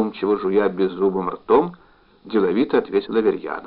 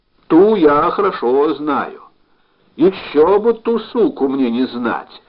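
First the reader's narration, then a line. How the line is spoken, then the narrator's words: Suddenly heated shout. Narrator (Russian): Вдруг распалившись, крикнул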